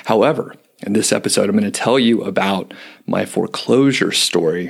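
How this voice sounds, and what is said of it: Hoarse, scratchy voice. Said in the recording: “this sexy sort of hoarse voice ... my voice was even worse. I couldn't even make it through a sentence without it cracking ... My voice is just sort of scratchy”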